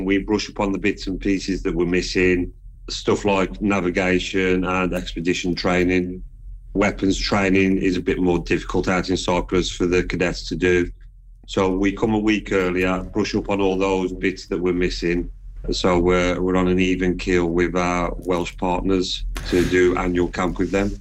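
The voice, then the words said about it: Midlands accent. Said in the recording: “your accent, because she too is from the Midlands”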